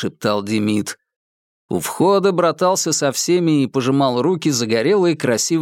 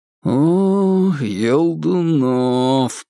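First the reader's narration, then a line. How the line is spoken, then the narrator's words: Drawn out. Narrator (Russian): протянул я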